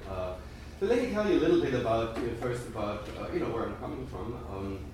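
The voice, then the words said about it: German accent in English. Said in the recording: “As you may have noticed from my accent, I'm German... probably sounded somewhat like me.”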